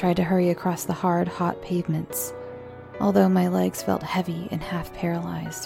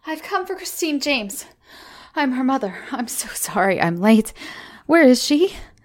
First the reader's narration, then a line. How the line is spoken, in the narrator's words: I gasped